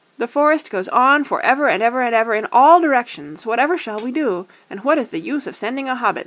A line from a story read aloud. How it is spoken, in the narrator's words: cried, as if it was his fault